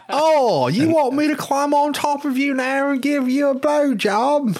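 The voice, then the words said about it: Exaggerated mock London accent. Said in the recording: “Adele's original accent is god-awful... her shit is worse than fucking Ozzy Osbourne. She sounds like Dick Van Dyke from Mary Poppins.”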